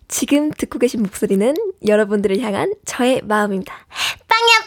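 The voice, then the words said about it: Cute aegyo-style voice. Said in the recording (Korean): “여러분들을 향한 애교를 좀 준비를 해왔습니다 ... 개인기 애교”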